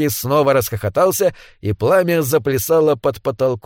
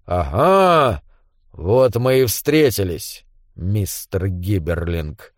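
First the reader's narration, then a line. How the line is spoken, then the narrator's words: Grumbling. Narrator (Russian): проворчал Белкис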